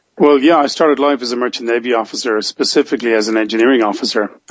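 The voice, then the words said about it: Irish accent. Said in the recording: “so you're an Irishman then ... be able to pick the accent up there”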